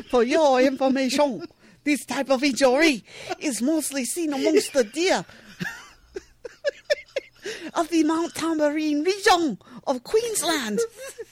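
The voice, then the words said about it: Muddled put-on Australian accent. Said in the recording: “We're going in and out of accents here. ... Their accent gets a little muddled from time to time.”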